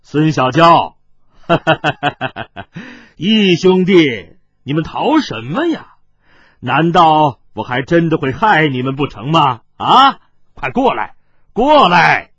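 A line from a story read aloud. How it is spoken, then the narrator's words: Soft laugh from the grass. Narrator (Chinese): 忽听草丛当中传过来一个人的语声，轻轻的笑道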